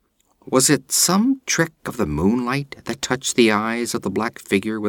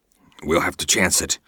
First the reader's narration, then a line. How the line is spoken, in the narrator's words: he grunted